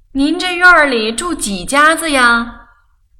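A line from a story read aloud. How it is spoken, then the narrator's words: Loud shout. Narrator (Chinese): 宋妈大声地喊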